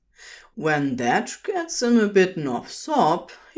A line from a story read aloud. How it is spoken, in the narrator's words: he chuckles